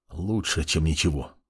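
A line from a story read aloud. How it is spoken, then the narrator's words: Mumbling mage. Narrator (Russian): пробормотал маг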